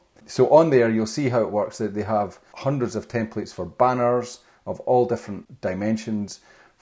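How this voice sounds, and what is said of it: Speaks with a brogue. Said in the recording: “in case people can't understand my brogue.”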